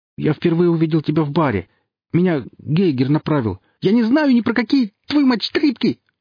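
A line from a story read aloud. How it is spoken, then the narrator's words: Shrieked. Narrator (Russian): завизжал Алексей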